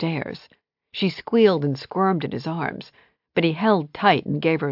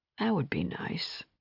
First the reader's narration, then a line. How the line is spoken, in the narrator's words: he murmured